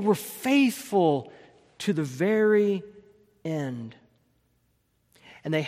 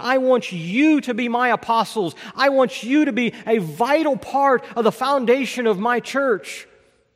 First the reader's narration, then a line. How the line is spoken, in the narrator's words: Jesus called out and said